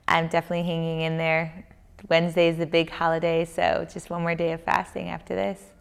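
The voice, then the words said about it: Tired, less cheerful voice. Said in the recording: “you guys can tell from my tone, I probably am going to feel I'm fatigued ... I'm not as cheerful and chippy”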